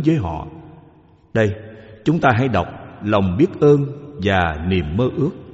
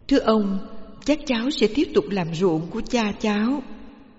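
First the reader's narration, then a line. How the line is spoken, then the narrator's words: Gentle polite. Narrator (Vietnamese): Cậu nhỏ nhẹ thưa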